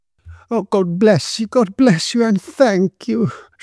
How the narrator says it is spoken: she exclaimed

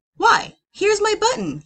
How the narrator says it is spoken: he cried

